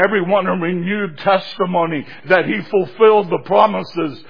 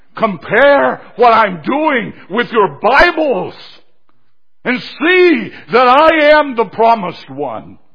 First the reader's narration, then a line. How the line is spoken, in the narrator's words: He was shouting to the people